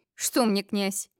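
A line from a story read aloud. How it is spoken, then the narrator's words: Snorting. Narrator (Russian): фыркнул темный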